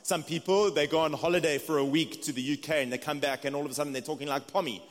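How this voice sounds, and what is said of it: South African accent. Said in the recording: “It's just my South African accent.”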